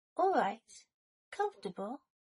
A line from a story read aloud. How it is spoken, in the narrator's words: Draco asked